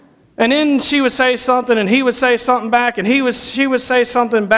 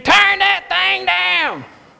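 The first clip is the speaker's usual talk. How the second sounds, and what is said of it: Screamed imitation of another person's voice. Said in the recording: “Mimi would come in and scream at JT ... That's a pretty good impersonation, I think.”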